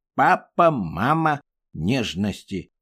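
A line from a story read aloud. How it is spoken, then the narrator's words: Grumbling. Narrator (Russian): Все еще ворчал Ква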